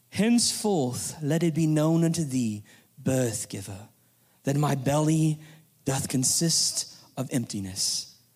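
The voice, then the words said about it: Poorly done English accent. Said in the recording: “It needed the English accent that I completely and totally butchered”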